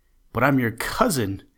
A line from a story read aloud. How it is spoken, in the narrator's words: cried Bobby as he started to run